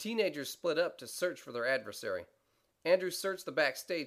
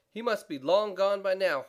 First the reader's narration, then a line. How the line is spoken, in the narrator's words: Horseradish sighed